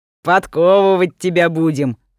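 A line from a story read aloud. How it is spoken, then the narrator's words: Laughing loudly. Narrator (Russian): хохотал Митрич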